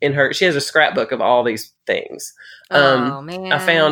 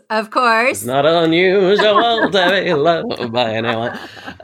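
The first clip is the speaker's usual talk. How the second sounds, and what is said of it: Imitates a singer, congested voice. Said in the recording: “I can do Tom Jones good today because I've had a cold ... I sound like a fan man today”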